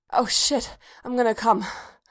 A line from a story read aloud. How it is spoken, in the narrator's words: Bodhi gasped